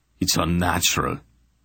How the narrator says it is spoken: he muttered to Barak

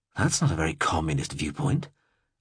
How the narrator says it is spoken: I breathed softly

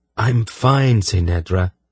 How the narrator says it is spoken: he said in a patient tone

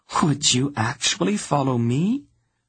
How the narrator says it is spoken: She asked in her most little girl voice

